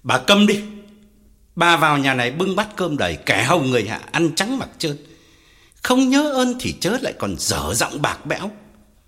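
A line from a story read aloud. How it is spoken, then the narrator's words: Pale, loud shout. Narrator (Vietnamese): Ông Phú tái mặt quát lớn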